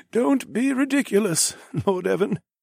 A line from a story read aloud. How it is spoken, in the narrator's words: the High Sage chuckled